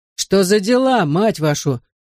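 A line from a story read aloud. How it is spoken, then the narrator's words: Growling. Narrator (Russian): прорычал один из игроков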